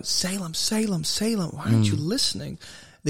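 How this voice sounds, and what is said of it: Yelling. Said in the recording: “I'm yelling”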